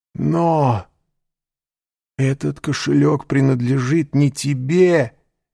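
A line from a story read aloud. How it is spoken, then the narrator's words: Exclaiming. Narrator (Russian): воскликнул Морель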